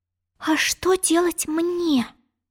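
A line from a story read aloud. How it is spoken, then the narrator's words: Confused whisper. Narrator (Russian): растерянно прошептала Алиса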